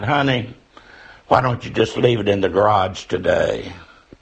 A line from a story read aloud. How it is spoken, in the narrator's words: calmly replied